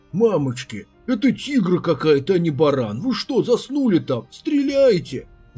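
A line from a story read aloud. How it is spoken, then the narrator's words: Panicked yell. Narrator (Russian): завопил Пяо, заметив, что овцерог настигает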